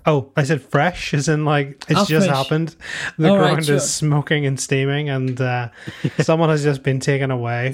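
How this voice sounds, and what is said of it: Thick Irish accent. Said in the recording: “I just can't understand you over your thick Irish accent.”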